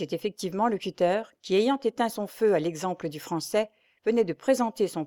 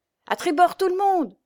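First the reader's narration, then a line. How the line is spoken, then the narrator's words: Shout. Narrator (French): hurla Vandebout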